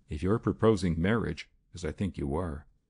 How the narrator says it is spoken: she said quietly

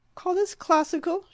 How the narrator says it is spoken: she cried

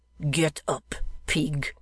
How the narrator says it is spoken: growled the first

